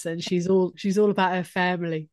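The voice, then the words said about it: Poor EastEnders-style accent impression. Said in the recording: “my terrible EastEnders impression.”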